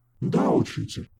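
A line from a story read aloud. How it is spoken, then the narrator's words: Guilty young man. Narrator (Russian): виновато кивнул молодой господин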